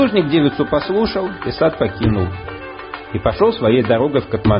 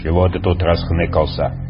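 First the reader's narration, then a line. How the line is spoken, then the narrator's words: Menacing question. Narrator (Russian): вопрошает грозно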